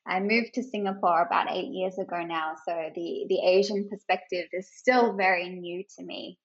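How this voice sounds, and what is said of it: Australian accent. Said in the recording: “I have an Australian accent and I'm originally from Australia.”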